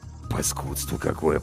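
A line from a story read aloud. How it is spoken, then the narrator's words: Grumbling. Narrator (Russian): пробурчал Зверев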